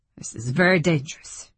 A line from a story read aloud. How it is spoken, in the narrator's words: he grunted